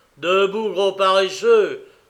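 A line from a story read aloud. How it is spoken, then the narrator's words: Roar. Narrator (French): rugit Harris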